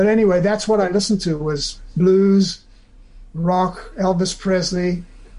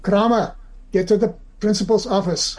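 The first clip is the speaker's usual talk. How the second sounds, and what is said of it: Imitated school teacher's accent. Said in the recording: “The accent is perfect.”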